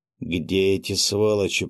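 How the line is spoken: Growling. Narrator (Russian): прорычал князь

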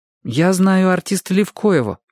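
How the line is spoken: Plain. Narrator (Russian): сказал Чик

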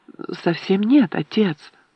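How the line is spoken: Soft gentle objection. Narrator (Russian): мягко возразила Элисте

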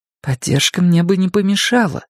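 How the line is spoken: Soft reply. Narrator (Russian): мягко ответила Френни

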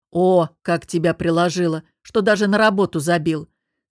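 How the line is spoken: Mocking. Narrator (Russian): с издевкой произнес Костя

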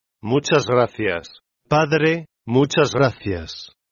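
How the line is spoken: Dying man's weary broken murmur. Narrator (Spanish): El moribundo, con la voz entrecortada por el cansancio, murmuró

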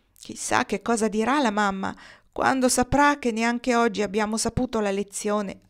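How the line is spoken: One boy sighing. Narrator (Italian): sospirò uno

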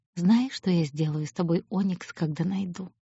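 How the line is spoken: Quiet. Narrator (Russian): тихо говорит он

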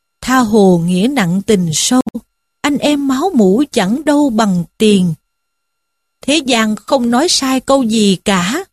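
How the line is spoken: Sighing lament to himself. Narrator (Vietnamese): Lâm Xung thở dài, than một mình rằng

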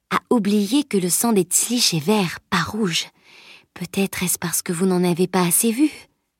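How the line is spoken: Murmured. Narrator (French): murmura-t-elle

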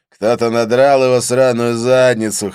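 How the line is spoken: Laughing, drawling Northern Irish accent. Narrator (Russian): хохотнув, изрек Конкэнон с протяжным североирландским прононсом

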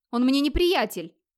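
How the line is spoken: Sharp reply. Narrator (Russian): резко ответил Фьяль

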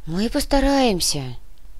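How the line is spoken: Sighing. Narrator (Russian): вздохнула сотрудница комитета

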